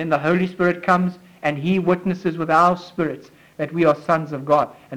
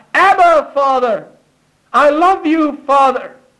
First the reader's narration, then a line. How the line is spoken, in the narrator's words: he cries out